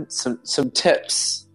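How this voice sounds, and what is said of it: Put-on New Zealand accent. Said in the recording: “I'm going to speak this in a New Zealand accent ... That was pretty good.”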